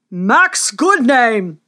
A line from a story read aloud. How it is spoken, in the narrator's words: thundered the king